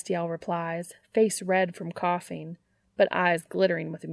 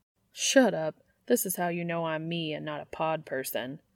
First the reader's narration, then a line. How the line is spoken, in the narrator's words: Dean mutters, blushing in spite of himself